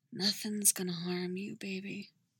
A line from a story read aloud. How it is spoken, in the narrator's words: he whispers into her hair